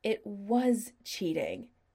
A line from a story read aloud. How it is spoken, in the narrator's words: Chris said angrily